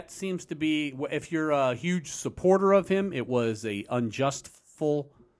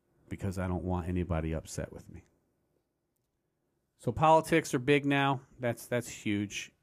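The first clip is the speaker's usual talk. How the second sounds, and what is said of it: Soft, quiet voice. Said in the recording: “talking in my soft voice”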